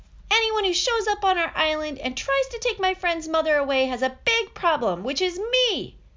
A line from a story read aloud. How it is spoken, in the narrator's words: yelling